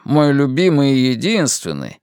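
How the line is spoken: Moaning. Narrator (Russian): стонавшим

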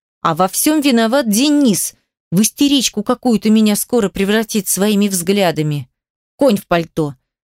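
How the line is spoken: Sharp blurt. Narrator (Russian): Резко выдаю Агате прямо в лицо

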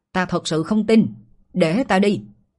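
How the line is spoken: Loud shout. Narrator (Vietnamese): Một người quát to

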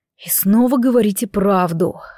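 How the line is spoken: Disappointed sigh. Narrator (Russian): разочарованно выдохнул министр

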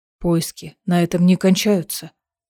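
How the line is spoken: Quiet. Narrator (Russian): тихо сказал Дорин

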